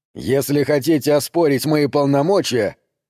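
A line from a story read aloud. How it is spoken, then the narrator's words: Barking. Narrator (Russian): рявкнул МакМейнус на полицейского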